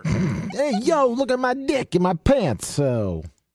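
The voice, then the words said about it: Put-on Italian-American character voice. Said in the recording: “turned into Vinny Barbarino from fucking Welcome Back, Carter. ... I don't know if that's quite the impersonation I was looking for ... That's my Italian.”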